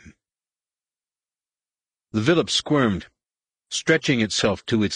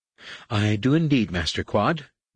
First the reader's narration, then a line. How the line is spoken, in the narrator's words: Nen Yim replied